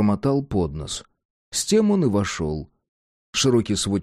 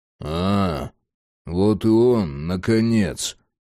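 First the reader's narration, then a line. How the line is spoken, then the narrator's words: Grumbled. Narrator (Russian): буркнул Ворон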